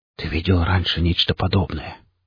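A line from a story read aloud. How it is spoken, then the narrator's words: Cautious awed whisper. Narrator (Russian): шепотом произнес механик, словно боясь спугнуть наваждение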